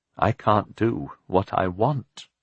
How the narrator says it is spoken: she said sadly

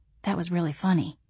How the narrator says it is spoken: I whispered, glad that Zeb had ducked into the walk-in pantry and hadn't heard it

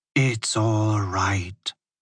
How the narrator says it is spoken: she whispered

